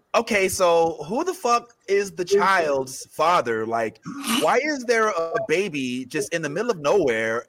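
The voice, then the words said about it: Impression of a friend. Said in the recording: “my impression of Stephanie watching Mandalorian”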